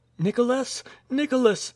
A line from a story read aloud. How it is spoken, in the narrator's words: cried the girl, with a foreboding of evil